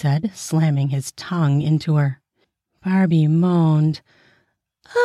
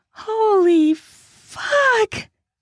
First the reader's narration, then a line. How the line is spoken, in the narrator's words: screamed